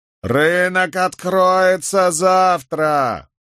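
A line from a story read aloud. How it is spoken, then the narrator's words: Loud bellowing. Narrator (Russian): во весь голос орал он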